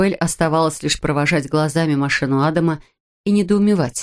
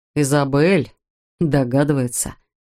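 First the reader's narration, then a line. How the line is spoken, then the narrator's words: Wry snort. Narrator (Russian): хмыкнул Адам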